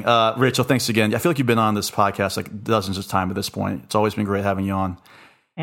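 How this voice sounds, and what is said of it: Hoarse, fading voice. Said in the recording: “I'm literally losing my voice as I'm saying goodbye.”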